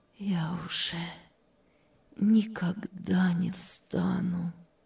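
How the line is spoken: Sad. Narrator (Russian): печально сказала Мария

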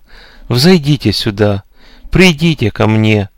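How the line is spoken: Gentle calling. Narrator (Russian): ласково призывал

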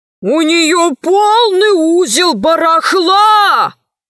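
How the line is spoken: Shouting. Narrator (Russian): кричал толстый король

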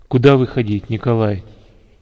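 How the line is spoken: Quiet but commanding question. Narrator (Russian): командир тихо, но властно спросил

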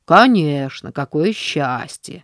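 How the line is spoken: Dismissive male snort. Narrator (Russian): пренебрежительно фыркнул мужчина

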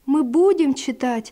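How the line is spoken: Joyful promise. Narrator (Russian): радостно пообещал Василь

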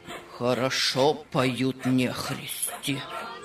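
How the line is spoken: Muttered to himself. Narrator (Russian): пробормотал он про себя

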